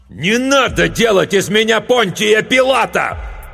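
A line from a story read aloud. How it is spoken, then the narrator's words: Hateful shout. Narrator (Russian): закричал док с ненавистью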